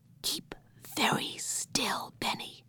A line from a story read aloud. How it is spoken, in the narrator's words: whispered Henry